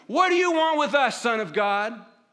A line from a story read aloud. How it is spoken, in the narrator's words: they're shouting at him